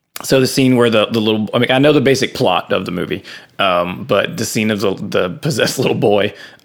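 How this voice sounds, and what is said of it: Rough, unwell-sounding voice. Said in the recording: “sorry for my voice.”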